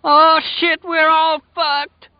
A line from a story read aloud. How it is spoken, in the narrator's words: Lloyd Henry cried